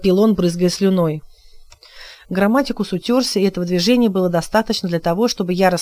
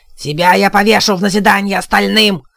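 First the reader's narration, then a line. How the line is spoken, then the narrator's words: Growling. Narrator (Russian): зарычал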